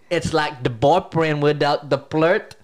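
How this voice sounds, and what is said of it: Exaggerated Filipino accent. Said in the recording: “Unnecessary Filipino. Unnecessary Filipino accent.”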